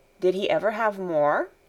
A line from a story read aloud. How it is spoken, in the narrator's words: asked Barbel